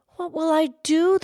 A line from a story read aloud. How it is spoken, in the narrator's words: the woodman cried